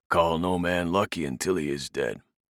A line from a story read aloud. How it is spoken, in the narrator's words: Ewan rasped